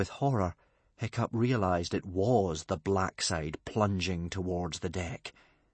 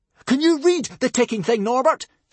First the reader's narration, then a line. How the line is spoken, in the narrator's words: screamed Hiccup